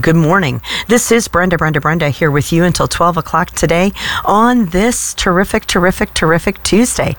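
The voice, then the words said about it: Voice sounds sick with a cold. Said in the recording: “Despite how my voice might sound, I've got this cold that is just lingering on.”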